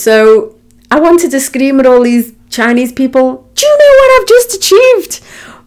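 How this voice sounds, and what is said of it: Strong, hard-to-understand accent. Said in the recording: “as you can tell from my accent, not many people English can understand my accent.”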